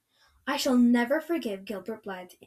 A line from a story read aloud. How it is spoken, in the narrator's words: Anne said firmly